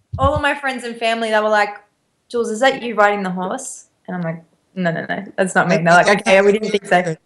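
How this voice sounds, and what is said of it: Australian accent mixed with American. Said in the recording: “accent keeps switching from American back to Australian ... you say so many things as Americans do, and then, of course, you have the Aussie accent.”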